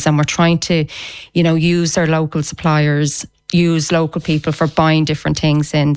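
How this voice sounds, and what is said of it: Dublin Irish accent. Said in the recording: “You've got the most wonderful black sod accent ... you're a dub”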